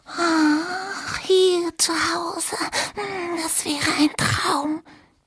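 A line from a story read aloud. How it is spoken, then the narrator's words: Squeaking. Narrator (German): piepsten sie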